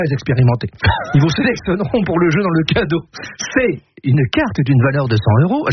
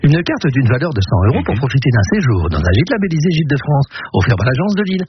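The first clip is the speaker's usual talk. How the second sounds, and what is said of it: Put-on hostess announcer voice. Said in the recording (French): “faire ma voix d'hôtesse”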